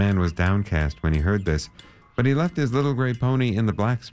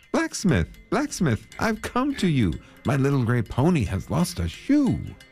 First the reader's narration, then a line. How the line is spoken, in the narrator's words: called out to him